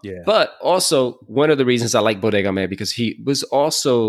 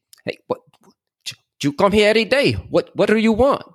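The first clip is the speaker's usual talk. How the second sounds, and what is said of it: Puerto Rican Spanish-accented broken English. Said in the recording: “His Spanish was on point. His English was not that ... he would try to speak that English ... like that accent would come out”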